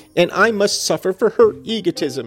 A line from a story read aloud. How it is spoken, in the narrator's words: she sobbed